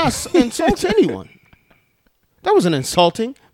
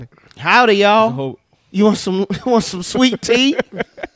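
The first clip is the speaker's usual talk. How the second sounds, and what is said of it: Bad put-on Southern accent. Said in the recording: “That's our Southern accent. ... Terrible.”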